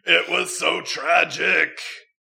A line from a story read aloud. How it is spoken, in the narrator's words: Harry yelled